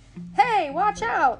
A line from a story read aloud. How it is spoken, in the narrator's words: the gardener shouted